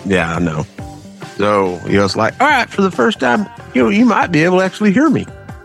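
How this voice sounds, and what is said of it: Southern hillbilly twang accent. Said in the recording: “my horrible redneck hillbilly twang accent”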